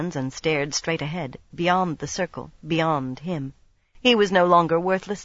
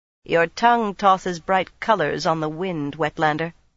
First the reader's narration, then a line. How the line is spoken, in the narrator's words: Tion said in a flat voice